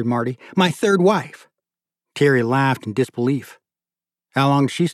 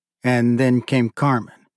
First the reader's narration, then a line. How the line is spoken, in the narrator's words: Thierry said dryly